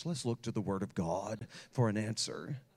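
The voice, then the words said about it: Solemn pastoral preaching voice. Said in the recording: “in my pastoral voice”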